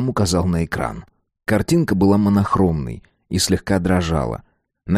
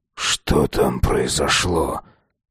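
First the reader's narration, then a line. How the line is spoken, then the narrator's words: Strained, choked voice. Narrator (Russian): сдавленным голосом спросил Петр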